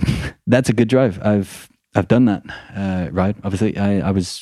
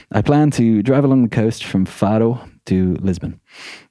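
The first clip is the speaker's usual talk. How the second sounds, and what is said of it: Place name said in an accent. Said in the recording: “Why did I do Faro in the accent and not Lisbon?”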